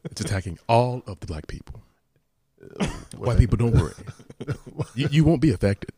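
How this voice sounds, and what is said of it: Imitates another person's voice. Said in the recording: “That's our Paul Mooney impersonation.”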